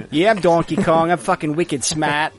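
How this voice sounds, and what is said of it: Put-on Boston accent. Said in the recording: “everyone has a Boston accent”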